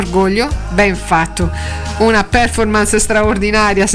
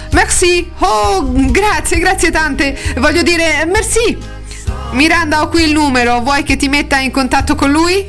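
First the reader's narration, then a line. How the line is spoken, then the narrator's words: Exclaimed. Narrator (Italian): esclamando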